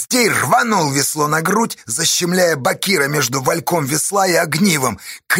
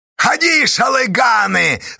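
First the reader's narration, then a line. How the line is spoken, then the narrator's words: Yelling. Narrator (Russian): заорал Поздей на бурлаков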